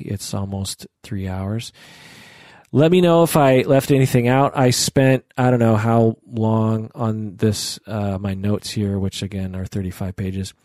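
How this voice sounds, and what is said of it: Scratchy, hoarse voice. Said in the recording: “If you can't tell, my voice is a little scroggy.”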